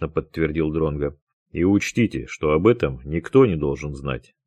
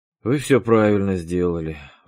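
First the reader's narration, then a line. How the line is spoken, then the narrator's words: Sighing. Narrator (Russian): вздохнул он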